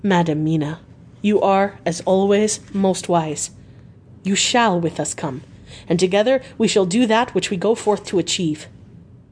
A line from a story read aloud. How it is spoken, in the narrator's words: Van Helsing said very gravely